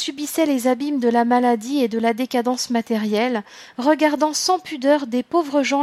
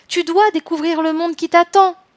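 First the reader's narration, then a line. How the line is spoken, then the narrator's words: Spirits shouting. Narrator (French): criaient les esprits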